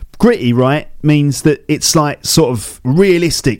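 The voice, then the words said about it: Put-on Cockney accent. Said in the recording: “I'm doing this in a Cockney voice now”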